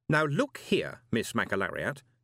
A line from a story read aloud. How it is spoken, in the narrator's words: he said firmly